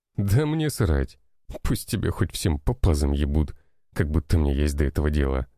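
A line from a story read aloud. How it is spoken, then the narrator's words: Scoffing. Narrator (Russian): хмыкнул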